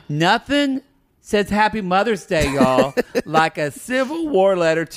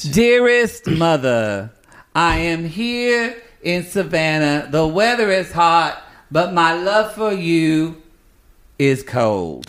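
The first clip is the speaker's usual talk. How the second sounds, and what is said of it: Imitation of another person's accent. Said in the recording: “I don't like the way you do my accent.”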